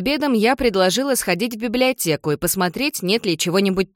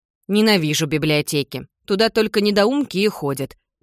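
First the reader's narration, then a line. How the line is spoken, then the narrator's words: Grumbling mutter. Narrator (Russian): пробурчала Джардин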